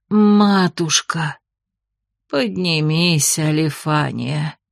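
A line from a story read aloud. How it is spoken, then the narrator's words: Old nun, soft request. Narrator (Russian): мягко попросила старая монахиня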